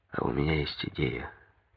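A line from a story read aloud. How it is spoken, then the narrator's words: Quiet. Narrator (Russian): тихо сказал ему Коньков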